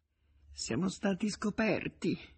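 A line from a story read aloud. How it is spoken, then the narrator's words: Mumbled. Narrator (Italian): farfugliò Nemecek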